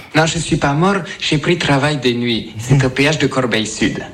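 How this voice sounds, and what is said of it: Distinctive foreign accent. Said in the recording (French): “Et cet accent aussi inimitable.”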